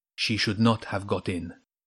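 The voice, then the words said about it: Soft Persian accent, cat character. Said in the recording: “it said in a soft Persian accent.”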